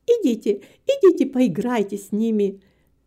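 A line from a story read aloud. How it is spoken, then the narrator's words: Laughing. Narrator (Russian): засмеялась Нетта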